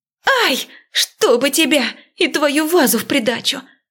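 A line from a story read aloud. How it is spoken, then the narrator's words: Pained scream. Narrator (Russian): закричала я, почувствовав резкую боль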